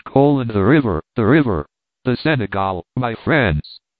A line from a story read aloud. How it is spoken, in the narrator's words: the doctor exclaimed